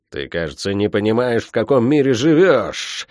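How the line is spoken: Angry hiss through teeth. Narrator (Russian): зло процедила Тия

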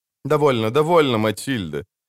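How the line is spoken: Gentle but quick. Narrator (Russian): мягко, но быстро сказал Хувенагель, видя на лице Бонарта растущее отвращение

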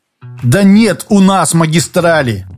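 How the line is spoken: Rustling exclamation. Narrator (Russian): воскликнул шорох

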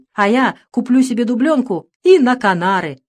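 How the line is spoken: Laughing merrily. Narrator (Russian): весело засмеялся Чиж

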